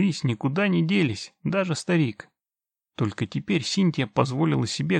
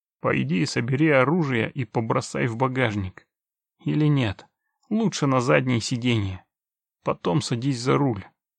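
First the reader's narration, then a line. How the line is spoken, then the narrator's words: Strained wheeze. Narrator (Russian): сдавленно просипел Геральт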